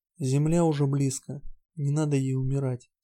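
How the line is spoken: Quiet, peaceful. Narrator (Russian): сказал Отель тихо и умиротворенно

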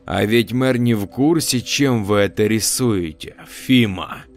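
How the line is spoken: Ominous voice. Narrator (Russian): добавил зловещим голосом серьезный человек

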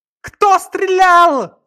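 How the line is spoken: Forester yelling into radio. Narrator (Russian): заорал лесник в рацию

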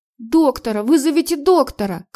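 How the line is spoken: Shouting. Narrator (Russian): крикнула Анна

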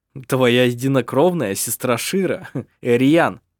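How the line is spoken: Laughing. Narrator (Russian): засмеялся он

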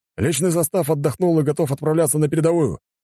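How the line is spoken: Brisk, clipped. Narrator (Russian): бодро отчеканил Афанасьев

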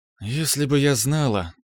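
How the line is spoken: Sighing. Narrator (Russian): вздохнула в ответ полуэльфийка

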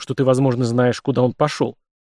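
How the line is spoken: Icy tone. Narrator (Russian): ледяным тоном уточнил Колчев

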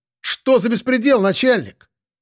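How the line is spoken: Shout. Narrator (Russian): выкрикнул тогда он

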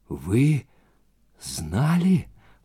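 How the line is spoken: Whisper. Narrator (Russian): прошептал он

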